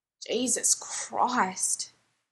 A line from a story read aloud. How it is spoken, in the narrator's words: Jared groans